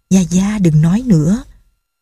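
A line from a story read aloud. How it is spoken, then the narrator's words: Softly spoken. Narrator (Vietnamese): Nghi Lâm nói khẽ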